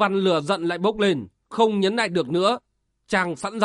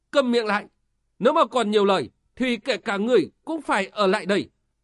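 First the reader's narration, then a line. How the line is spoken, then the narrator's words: Loud voice. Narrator (Vietnamese): Quỷ hồ phu nhân lớn tiếng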